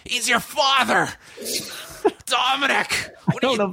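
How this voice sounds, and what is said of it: Screamed imitation of another person's voice. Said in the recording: “You're screaming”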